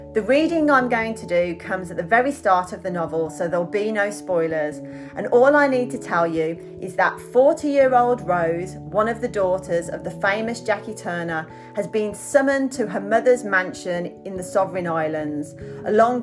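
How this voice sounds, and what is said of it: Birmingham Brummie English accent. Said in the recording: “my Birmingham Brummy accent is sticking”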